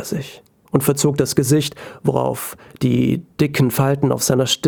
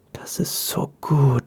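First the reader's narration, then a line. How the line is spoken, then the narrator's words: Whisper. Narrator (German): flüsterte Madame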